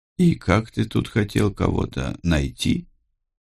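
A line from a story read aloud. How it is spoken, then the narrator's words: Quiet question. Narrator (Russian): тихо спросил я у Мартина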